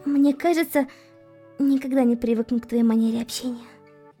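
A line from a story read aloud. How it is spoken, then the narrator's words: Sighing. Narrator (Russian): вздохнула Эмилия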